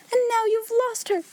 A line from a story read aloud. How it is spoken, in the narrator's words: she cried wildly